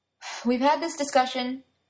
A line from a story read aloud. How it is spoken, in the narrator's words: Arthur said with a sigh